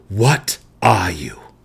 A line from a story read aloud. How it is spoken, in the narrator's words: The spirit wraith snarled